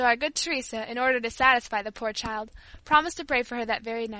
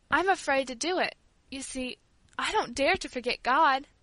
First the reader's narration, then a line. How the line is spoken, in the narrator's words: she said hesitatingly in a trembling voice